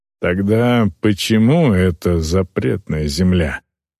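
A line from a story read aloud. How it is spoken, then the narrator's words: Plain question. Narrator (Russian): снова спросил он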